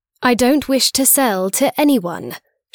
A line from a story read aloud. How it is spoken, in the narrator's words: told him firmly